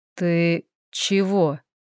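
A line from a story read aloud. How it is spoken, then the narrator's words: Hoarse young man's voice. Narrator (Russian): хриплый голос парня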